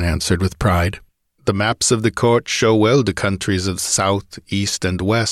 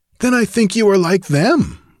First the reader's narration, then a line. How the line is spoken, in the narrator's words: laughed Prospero